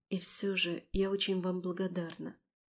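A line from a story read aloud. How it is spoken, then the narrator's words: Quiet noblewoman. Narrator (Russian): тихо проговорила баронесса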